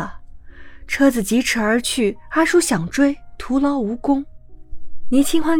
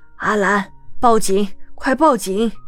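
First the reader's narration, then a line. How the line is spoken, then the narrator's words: Breathless old man. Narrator (Chinese): 阿叔 上了年纪 累得气喘吁吁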